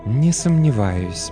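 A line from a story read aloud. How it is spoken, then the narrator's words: Honeyed voice. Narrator (Russian): медовым голосом говорит Гвиневера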